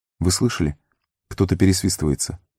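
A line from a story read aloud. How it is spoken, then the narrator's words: Whisper. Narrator (Russian): прошептал он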